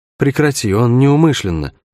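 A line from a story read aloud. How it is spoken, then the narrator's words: Tired plea from aside. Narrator (Russian): устало попросила Шерн откуда-то сбоку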